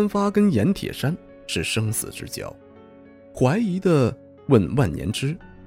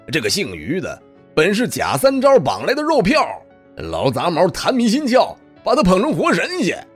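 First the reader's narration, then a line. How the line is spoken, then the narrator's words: Noisy, clamorous. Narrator (Chinese): 严铁山吵嚷着说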